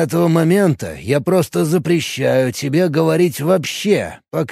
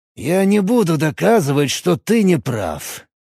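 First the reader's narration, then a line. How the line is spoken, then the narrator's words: Sighed. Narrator (Russian): вздохнул Форсов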